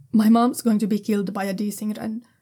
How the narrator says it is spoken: he says quickly

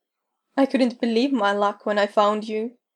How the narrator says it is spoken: says with a laugh

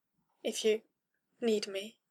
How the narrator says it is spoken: managed weakly

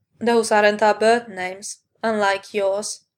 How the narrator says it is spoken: Sephiroth pointed out flatly

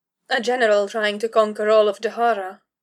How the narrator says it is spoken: Kara observed dryly

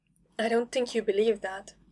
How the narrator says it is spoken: he said, still speaking quietly

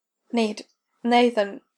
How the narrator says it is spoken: she pants, her scattered thoughts coming together for a few moments

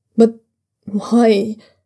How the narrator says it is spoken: Dryonlan asks, his voice almost breaking

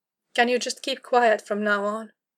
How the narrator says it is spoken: Kara sighed wearily

